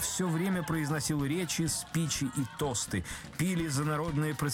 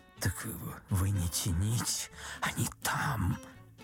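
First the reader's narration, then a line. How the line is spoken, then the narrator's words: Whisper. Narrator (Russian): Ипполит Матвеевич шепнул Бендеру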